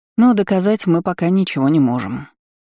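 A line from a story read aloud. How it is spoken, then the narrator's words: Sighing. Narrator (Russian): вздохнула Айролин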